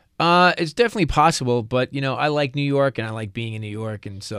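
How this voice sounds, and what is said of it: Slight New York accent. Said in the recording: “You got a touch of a New York accent. ... Just a touch.”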